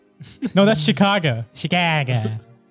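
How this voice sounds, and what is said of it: Put-on Chicago accent. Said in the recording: “Is that your Chicago accent?”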